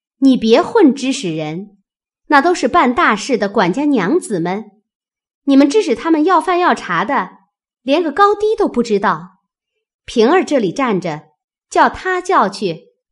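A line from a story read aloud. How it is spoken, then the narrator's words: Loud. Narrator (Chinese): 探春高声说道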